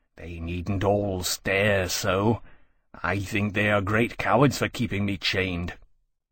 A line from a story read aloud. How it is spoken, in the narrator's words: muttered